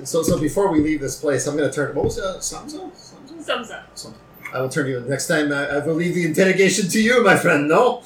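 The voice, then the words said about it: Thick French accent. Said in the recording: “Your accent was so thick, I could not... It's not Quebecois... as a French”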